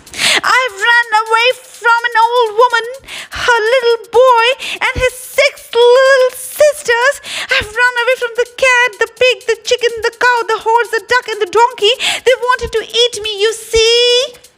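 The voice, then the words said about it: Very loud, shouted storytelling voice. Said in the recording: “called out in a very loud voice”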